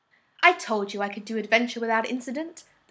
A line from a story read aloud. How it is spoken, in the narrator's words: exclaims, feeling more triumphant than perhaps he should